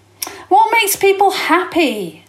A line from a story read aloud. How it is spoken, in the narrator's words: Jasmine said fiercely